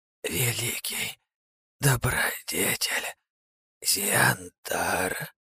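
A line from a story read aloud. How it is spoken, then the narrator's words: Hoarse squeak, near tears. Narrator (Russian): пропищала хрипло и едва узнаваемым голоском малышка, чуть не плача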